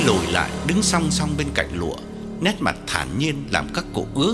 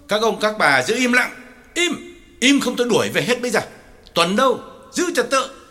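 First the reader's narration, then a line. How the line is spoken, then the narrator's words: Loud shout. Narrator (Vietnamese): Lý Trưởng phải quát lớn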